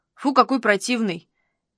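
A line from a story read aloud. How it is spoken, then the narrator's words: Quiet, sincere. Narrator (Russian): негромко искренне поделился Саруханян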